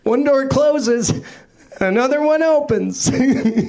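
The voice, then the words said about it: Character voice, imitates another person's voice. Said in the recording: “my impression of a guy trying to stay positive while living in a haunted house ... why do I sound like Nick fucking Nolte?”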